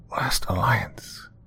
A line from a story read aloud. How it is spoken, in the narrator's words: Albie whispered rather quickly